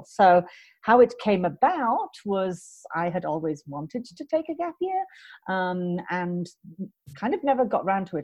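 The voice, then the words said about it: British accent. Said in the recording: “as you can hear from the accent. I am British.”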